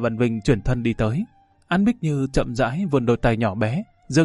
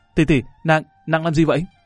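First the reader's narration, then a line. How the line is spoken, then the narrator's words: Startled gasp, shocked cry. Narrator (Vietnamese): Lâm Văn Vinh giật mình hả một tiếng, cả kinh la lên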